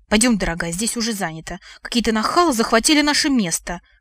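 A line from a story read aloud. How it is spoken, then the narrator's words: Distinct male hiss. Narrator (Russian): Отчетливо прошипел в кустах мужской голос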